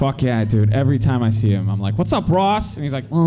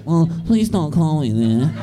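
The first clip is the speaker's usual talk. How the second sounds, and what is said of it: Impression of Ross from Friends. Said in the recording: “That was a great Ross impression.”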